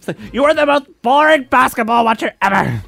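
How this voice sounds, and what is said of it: Imitates another person's voice. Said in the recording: “my Chrissy Teigen impression”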